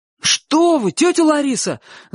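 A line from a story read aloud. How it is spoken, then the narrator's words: Frightened shout. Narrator (Russian): закричал Чик, страшно испугавшись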